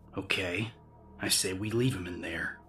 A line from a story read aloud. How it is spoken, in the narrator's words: he growled with undisguised irritation